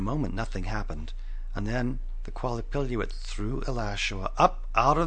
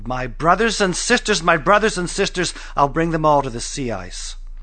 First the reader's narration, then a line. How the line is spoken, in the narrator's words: Alashua let out her breath and yelled